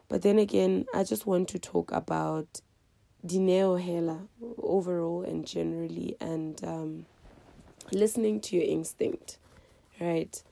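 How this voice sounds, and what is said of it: Sick, flu-affected voice. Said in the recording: “I'm so sorry for my voice. ... I think I'm coming a bit with flu”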